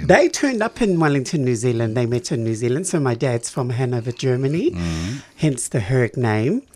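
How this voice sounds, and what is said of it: New Zealand accent. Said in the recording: “I was born in Wellington, New Zealand. ... That explains the accent. You haven't got rid of it, have you? ... I've been here 33 years and still got it.”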